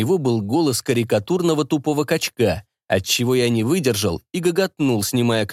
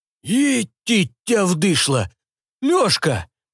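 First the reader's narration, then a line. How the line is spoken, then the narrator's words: Astonished exclamation. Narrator (Russian): изумленно воскликнул мой старый знакомец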